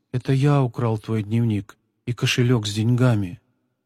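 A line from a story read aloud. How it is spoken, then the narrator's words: Quiet. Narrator (Russian): Павлик тихо произнес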